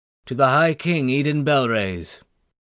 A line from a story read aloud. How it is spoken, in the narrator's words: one of those toasts that one merely needed to shout loudly